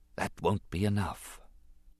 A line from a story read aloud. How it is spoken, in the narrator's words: His voice was small and went unheard as he whispered to himself